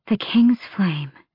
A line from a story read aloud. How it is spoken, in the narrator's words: she breathed, unable to stop herself